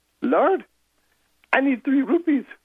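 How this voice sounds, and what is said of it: Poor put-on Indian accent. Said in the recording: “Pardon my terrible Indian accent”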